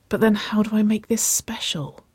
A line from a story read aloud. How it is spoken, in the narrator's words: she breathed